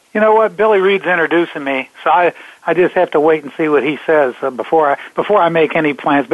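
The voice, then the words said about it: Congested, rough voice. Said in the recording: “I don't know if you can tell how bad my voice is right now ... I've had some congestion in my chest, and now it's in my throat”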